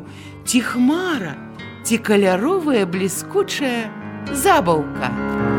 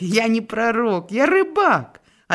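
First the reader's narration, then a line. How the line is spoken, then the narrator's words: Pleased laughter. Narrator (Belarusian): Павел задаволена смяяўся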